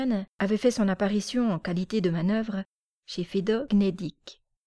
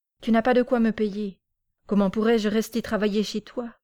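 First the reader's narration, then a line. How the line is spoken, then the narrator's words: Curt, dry declaration. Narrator (French): déclara-t-il brièvement et sèchement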